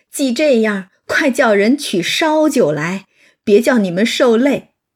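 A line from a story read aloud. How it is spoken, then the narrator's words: Laughing. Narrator (Chinese): 贾母笑道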